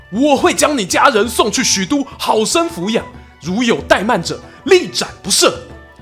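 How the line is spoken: Alarmed shouting. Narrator (Chinese): 曹操啊，为之色变 大喊

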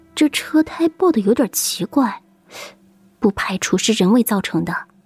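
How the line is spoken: Quiet, low voice. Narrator (Chinese): 顾西小声对顾北说

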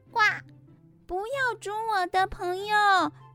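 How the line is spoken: Loud. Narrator (Chinese): 鸭子大声地说

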